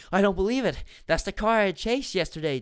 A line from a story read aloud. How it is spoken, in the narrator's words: Drew exclaimed